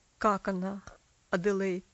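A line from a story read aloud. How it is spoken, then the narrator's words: Strained, failing to sound calm. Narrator (Russian): спросил мистер Динсмор, тщетно пытаясь говорить спокойно и уверенно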